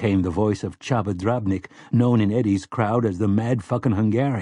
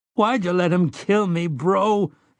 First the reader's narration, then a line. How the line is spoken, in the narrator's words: Henry sobbed